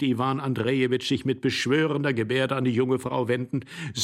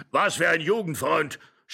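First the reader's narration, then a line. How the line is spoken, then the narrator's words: Angry shouting old man. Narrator (German): schrie der Alte und stampfte zornig mit dem Fuß auf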